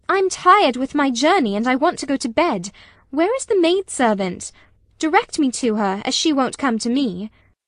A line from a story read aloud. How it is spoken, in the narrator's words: I exclaimed